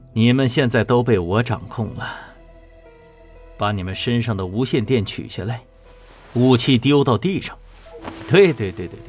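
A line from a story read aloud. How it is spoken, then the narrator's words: Manic laughter. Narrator (Chinese): 黄龙癫狂的大笑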